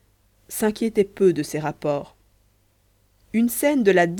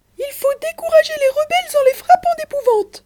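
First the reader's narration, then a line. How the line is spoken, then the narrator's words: Shouting. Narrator (French): criait M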